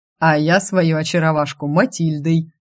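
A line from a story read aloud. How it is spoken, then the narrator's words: Chuckling. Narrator (Russian): Хохотнул Селино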